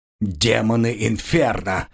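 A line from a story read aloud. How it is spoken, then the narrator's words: Angry growl. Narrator (Russian): зло прорычал Градиил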